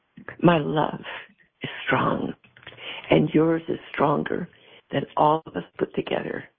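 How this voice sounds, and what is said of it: Weak, strained voice. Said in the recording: “my voice is not very strong right now”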